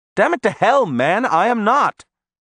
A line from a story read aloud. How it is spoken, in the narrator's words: I exclaimed